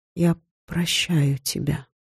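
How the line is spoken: Whisper. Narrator (Russian): пока я не прошептала

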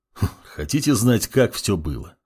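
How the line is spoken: Snorting. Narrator (Russian): хмыкнул темный паладин

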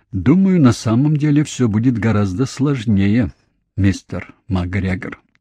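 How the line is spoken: Calm answer. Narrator (Russian): спокойно ответил Бенда

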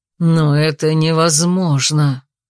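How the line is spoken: Growled. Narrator (Russian): прорычал король

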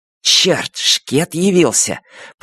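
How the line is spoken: Hissed. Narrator (Russian): прошипел он

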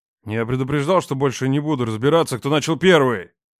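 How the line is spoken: Growled. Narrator (Russian): Зарычал Рома

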